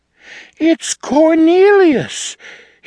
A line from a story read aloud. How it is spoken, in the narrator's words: cried